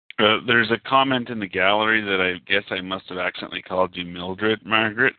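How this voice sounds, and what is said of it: Strong Canadian accent. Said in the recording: “I do have a strong Canadian accent.”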